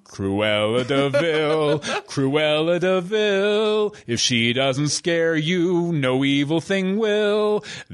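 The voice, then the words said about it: Singing in a deeper voice. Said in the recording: “I use my deeper voice. ... Deep voice for that one.”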